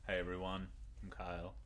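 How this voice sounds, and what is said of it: Fake smooth creepy voice. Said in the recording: “Dulcet tones... This is not what he sounds like 99% of the time... Stop being fake... Really creepy”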